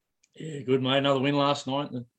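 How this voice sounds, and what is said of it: Hoarse voice. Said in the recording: “The throat's a bit hoarse, but, you know, sometimes you got to scream from the lounge room”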